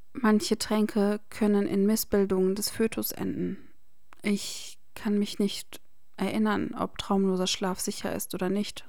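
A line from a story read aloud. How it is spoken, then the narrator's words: Shaky voice. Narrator (German): sagte sie mit zittriger Stimme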